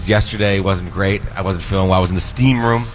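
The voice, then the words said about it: Stuffy, congested voice. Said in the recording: “a little stuffy. If he needs to blow his nose”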